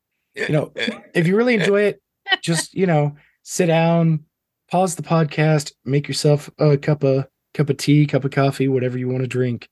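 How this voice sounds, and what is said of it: Voice sounds rough and unwell. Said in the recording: “as you can hear, my voice is terrible right now”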